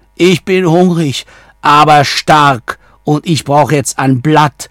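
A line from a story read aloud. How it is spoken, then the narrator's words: Calling out. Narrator (German): rief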